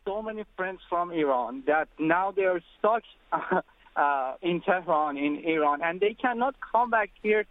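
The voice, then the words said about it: Speaks with a foreign accent. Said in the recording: “you don't need to apologize for your accent. We love accents.”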